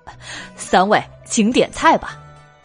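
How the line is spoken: Pleased, smiling. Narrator (Chinese): 小伙计估计超过了一百两银子，才笑道

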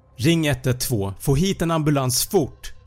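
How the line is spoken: Shouted urgently. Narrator (Swedish): skrek

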